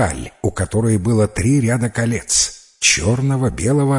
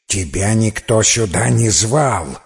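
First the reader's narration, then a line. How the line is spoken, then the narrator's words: Angry hiss. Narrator (Russian): В гневе зашипела Лансиолада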